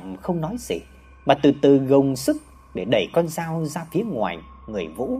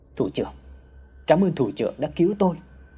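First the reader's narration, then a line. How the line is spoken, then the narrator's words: Soft, quiet. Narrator (Vietnamese): Vũ khẽ nói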